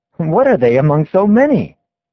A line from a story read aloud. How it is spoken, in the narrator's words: we exclaim